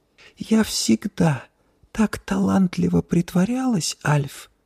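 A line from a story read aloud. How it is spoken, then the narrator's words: Whisper. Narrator (Russian): прошептала она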